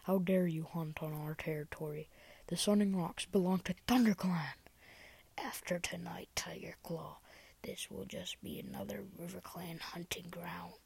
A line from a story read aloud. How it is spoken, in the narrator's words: tom spat back